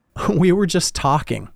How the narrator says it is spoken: Jill laughed

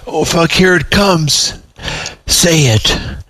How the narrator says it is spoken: begged the Reston priest

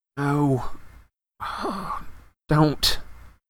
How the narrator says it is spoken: said Harry weakly

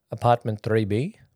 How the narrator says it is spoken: Marco asked with a heavy accent

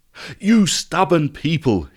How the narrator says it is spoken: exclaimed

